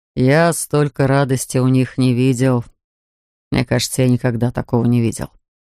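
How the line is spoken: Thoughtful. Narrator (Russian): задумчиво произнес Вилар

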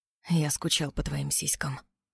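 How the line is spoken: Hoarse pained whisper. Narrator (Russian): хрипло прошептал Роу, почти с болью в голосе

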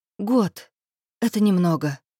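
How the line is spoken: Breathless, forced confidence. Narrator (Russian): выдохнула, стараясь говорить уверенно

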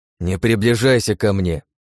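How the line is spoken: Cold. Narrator (Russian): холодно произнес я

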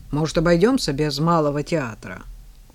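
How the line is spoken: Gloomy grumble. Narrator (Russian): Ефим, более мрачный, чем обычно, буркнул

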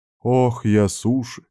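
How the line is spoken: Woman's feigned sigh. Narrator (Russian): наигранно вздохнула женщина

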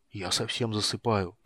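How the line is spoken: Whispered mumble. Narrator (Russian): пробормотал шепотом

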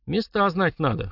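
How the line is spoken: Snort. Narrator (Russian): хмыкнул я

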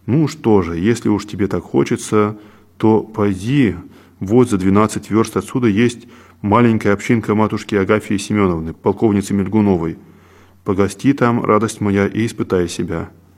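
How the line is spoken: Completely calm. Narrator (Russian): отец Серафим совершенно спокойно сказал

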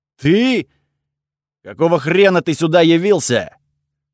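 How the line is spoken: Very loud yell, echoing. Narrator (Russian): Он заорал так громко, что эхо прогудело под стальным потолком

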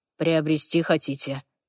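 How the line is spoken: Gloomy. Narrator (Russian): мрачно

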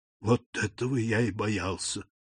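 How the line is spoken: Whispered. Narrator (Russian): прошептал Морель

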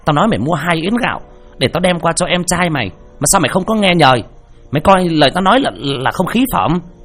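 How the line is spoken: Shrill hissing shout. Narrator (Vietnamese): Mụ Diễm thì chống nạnh mà rít lên

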